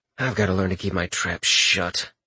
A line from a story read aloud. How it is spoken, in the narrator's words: Richter said aloud with a deep sigh